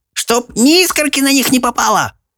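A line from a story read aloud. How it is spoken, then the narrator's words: Sharp scolding shout. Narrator (Russian): прикрикнула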